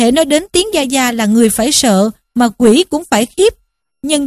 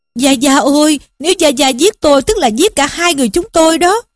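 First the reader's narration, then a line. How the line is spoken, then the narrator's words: Hurried loud pleading. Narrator (Vietnamese): Lý Quỷ vội vàng năn nỉ mà kêu vang lên rằng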